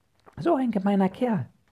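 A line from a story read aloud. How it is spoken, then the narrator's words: Call. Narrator (German): ruft Fuchsia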